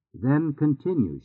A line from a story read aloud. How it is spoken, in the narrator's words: she said